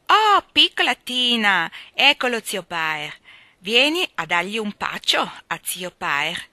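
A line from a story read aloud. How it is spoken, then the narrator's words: Laughing. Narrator (Italian): ridendo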